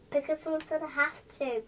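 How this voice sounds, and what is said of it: Child whispering. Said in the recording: “Why are you whispering? ... She said you have to whisper.”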